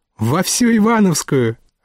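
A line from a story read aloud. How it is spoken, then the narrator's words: Joyful blurt. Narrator (Russian): радостно выпалил находчиво юный джентльмен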